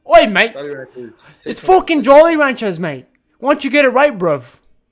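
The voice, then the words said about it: Put-on British accent. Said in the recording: “I'm from the UK too.”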